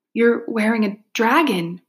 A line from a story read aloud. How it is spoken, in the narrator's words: Minli gasped